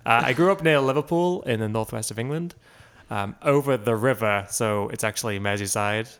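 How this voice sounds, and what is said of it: Posh Scouse English accent. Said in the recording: “Everyone thinks I'm South African... they call it a posh accent, a Scouse accent.”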